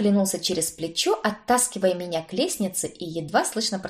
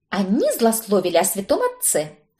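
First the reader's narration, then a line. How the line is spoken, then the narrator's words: Snapped. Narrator (Russian): огрызнулась я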